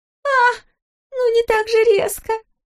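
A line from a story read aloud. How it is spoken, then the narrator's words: Alarmed squeak. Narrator (Russian): Пискнула трехдюймовочка, едва уберегаясь от чувствительного падения на стол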